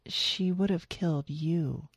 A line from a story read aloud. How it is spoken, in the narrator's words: Darlene whispered